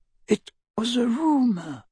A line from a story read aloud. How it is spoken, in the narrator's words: whispered Ollivander